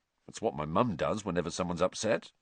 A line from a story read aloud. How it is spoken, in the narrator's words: Ron muttered